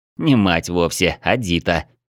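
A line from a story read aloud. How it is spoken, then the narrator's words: Muttered under breath. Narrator (Russian): пробурчал я под нос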